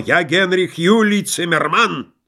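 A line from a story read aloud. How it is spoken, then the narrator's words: Confused shouting. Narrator (Russian): он, путая, кричал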